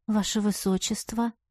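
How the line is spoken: Whispered. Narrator (Russian): прошептала

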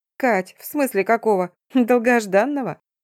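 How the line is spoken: Chuckling, then incredulous. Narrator (Russian): хохотнула подруга и недоверчиво добавила

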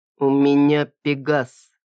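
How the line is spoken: Slow and deliberate. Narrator (Russian): проговорил медленно и членораздельно

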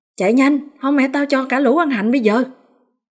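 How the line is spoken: Impatient loud shout. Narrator (Vietnamese): Nó sốt ruột hét lớn

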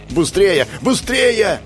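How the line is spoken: Yelling. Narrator (Russian): заорал я

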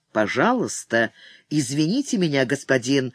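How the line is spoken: Calm, grim dignity, interrupting. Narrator (Russian): спокойно, с мрачным достоинством прервал его старый самурай

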